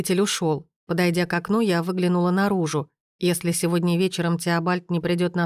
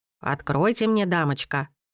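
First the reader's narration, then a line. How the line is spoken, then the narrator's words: Hoarse voice. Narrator (Russian): услышала я хриплый голос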